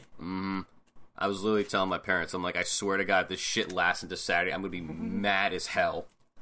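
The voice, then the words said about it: Sick-sounding voice. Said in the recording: “I'm sick, in case you can't tell by my voice”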